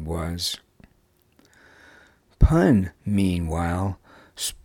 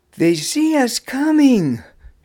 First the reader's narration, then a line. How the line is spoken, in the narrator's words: she called out